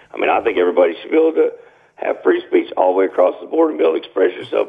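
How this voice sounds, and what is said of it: Raspy voice. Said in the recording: “you got that good little rasp”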